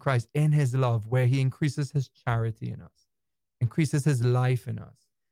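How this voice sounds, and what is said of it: Trinidadian accent. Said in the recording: “he's also from Trinidad Tobago, if you're wondering where his interesting accent comes from”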